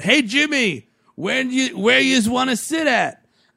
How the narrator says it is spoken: yelled out

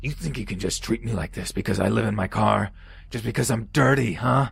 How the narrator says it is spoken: he roared, getting louder with each sentence

